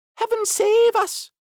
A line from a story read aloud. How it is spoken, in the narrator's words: cried the duck